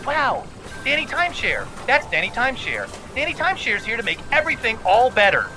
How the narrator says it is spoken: pre-recorded voices say

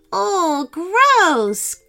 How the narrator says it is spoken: cried Georgia

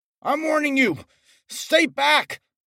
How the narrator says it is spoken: shouted

